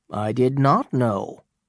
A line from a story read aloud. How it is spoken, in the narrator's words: said Chillingworth